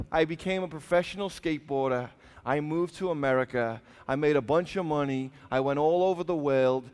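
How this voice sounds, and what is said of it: English Liverpool accent. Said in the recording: “I'm originally from Liverpool, England. ... This is how we're all meant to sound if we speak the Queen's English.”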